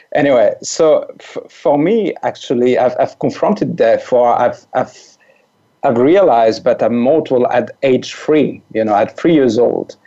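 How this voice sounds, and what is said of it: French accent. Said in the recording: “I'm French. So this weird accent that your listeners may hear is a French accent ... my weird accent”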